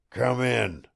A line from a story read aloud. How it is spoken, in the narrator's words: growled old Tom